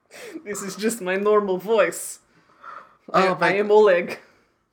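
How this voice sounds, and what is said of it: Inconsistent, bad Russian-like accent. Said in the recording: “Did you put on an accent for that part? ... This is only accent I can do. It's not consistent at all. ... It's really bad. ... I feel like it's mutated. ... It was like Russian at first. Now it's not.”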